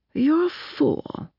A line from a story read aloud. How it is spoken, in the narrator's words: Chrysalis said again softly